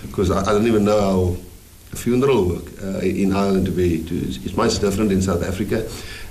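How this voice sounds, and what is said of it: Afrikaans accent. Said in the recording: “you come with an Afrikaans accent”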